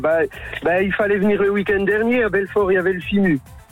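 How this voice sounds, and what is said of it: Slight regional French accent. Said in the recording (French): “J'avais entendu ce petit accent. Accent.”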